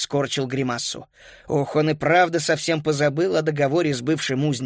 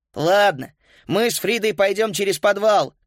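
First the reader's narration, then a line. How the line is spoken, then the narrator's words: Shouting after someone. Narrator (Russian): крикнул он вдогонку Карлу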